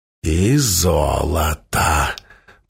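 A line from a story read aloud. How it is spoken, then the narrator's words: Muttered. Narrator (Russian): пробормотал Мерса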